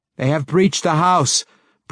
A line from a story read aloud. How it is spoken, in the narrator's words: Breeza cried, assuming the worst